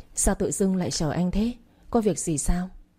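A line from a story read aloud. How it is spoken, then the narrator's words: Soft laughing voice. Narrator (Vietnamese): khẽ cười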